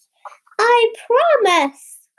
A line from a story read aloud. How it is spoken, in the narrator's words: cried Pinocchio happily